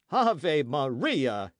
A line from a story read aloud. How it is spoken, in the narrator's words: he cried